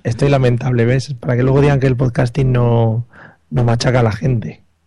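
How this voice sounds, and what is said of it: Hoarse, fading voice. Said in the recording (Spanish): “me estoy quedando sin voz, que me den un poco de miel ... vas a acabar aquí susurrando ... con la voz que tenía ahí de locutor y ahora está yendo a las bajas”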